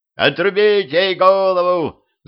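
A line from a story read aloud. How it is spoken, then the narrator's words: Frenzied shriek. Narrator (Russian): завизжал бесноватый Гриша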